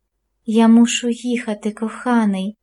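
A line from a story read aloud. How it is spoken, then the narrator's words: Whispering woman. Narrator (Ukrainian): прошепотіла вона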